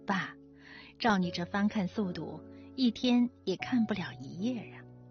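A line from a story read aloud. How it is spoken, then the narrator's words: Teasing laugh. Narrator (Chinese): 我笑他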